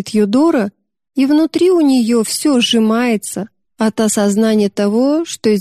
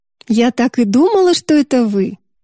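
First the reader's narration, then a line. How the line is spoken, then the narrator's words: Cheerful. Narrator (Russian): весело говорит Мэгги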